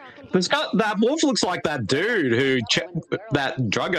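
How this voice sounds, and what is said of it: Usual voice. Nothing is said of it.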